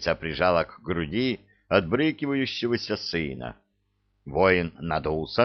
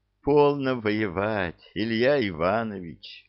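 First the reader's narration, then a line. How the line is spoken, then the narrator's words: Gentle coaxing, queen. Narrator (Russian): ласково увещевала царица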